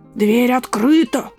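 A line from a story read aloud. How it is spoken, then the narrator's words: Hoarse growl. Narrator (Russian): прорычал хриплым голосом волк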